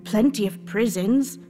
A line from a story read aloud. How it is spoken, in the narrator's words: said the gentleman